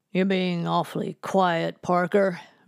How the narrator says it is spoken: Reverend Madison sneered

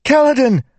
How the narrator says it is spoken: Syl cried in his mind

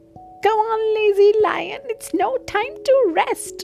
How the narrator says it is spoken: yelled the monkey

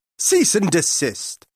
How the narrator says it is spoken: he snapped

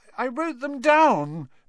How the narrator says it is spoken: saying tearfully

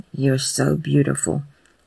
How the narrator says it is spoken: Cass murmurs, caught in a dizzying spiral of lust and awe

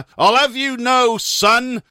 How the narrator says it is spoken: he roared indignantly

